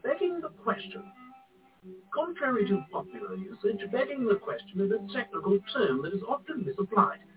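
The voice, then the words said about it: Posh English accent. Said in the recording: “in a posh English accent”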